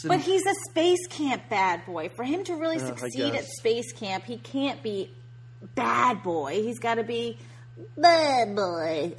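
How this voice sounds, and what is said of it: Impression, part Jinx, part Tate Donovan. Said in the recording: “That's a great impression. That was like part Jinx, part Tate Donovan. That was wonderful.”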